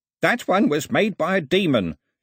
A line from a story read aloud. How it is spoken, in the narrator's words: shouted Ataba